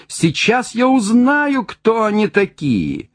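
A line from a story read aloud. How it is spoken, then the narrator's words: Shouting. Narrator (Russian): кричал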